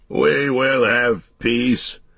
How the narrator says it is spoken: said Théoden thickly and with an effort

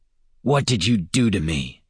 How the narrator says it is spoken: he snarled

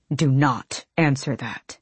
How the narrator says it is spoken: he snarled at Nezrin

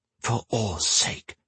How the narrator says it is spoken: Gwen hissed

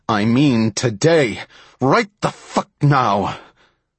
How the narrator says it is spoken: Ross all but shouted, his voice agitated

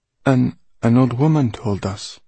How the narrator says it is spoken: he said in a wavering voice

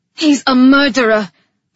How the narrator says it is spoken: I snapped back

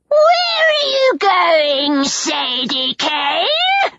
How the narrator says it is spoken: Neckbet shrieked

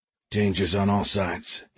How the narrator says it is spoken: he muttered

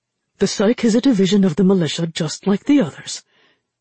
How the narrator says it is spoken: Irja said hastily

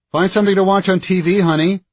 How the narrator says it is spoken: she called out

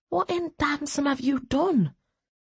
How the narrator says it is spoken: she whispered

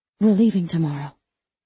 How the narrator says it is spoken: I whisper

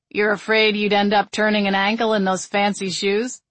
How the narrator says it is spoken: Kyle asked dryly

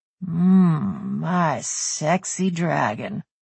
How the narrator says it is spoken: Bruiser murmured

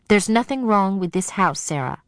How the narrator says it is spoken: she said firmly

